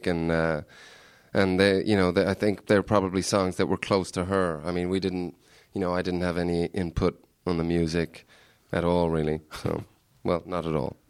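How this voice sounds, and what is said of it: American or Canadian-sounding accent. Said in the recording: “your character was obviously American? ... that's just my fucked up accent. sort of people always think I'm Canadian, but I'm actually Irish in disguise. Yeah, that's just the way I speak.”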